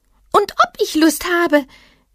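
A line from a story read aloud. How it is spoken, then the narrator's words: Small animal calling out. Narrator (German): rief das kleine Tier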